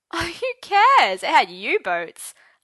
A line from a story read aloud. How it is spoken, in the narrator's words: Arthur laughed